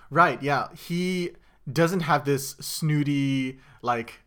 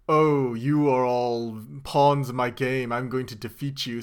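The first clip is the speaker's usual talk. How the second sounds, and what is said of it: Snooty cartoon villain voice. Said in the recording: “snooty ... You sounded like a Yu-Gi-Oh villain.”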